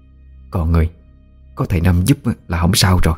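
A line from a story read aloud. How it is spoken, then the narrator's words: Soft, quiet. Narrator (Vietnamese): Bà cả nhỏ giọng nói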